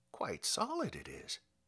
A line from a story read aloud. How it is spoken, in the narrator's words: he muttered